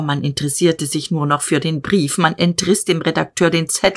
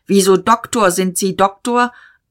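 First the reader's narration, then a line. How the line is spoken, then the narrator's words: Call. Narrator (German): Diederich rief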